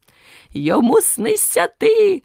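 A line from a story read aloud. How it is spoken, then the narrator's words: Exclaimed. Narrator (Ukrainian): вигукнув Верть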